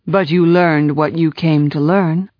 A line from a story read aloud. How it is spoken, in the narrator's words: said Julian